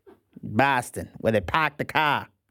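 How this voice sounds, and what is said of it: Poor put-on Boston accent. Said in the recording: “The Boston, B-A-H-S-T. ... I know that's a terrible impression.”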